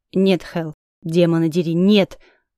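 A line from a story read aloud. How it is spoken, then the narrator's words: Low menacing growl. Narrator (Russian): Дракон рыкнул, негромко, но так, что Кремень, сидевший на несколько столиков от нас, обернулся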